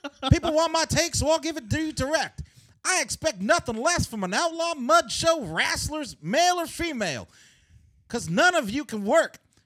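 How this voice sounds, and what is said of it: Jim Cornette impression. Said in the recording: “I got to put on a Jim Cornette voice. I don't know if I could do it.”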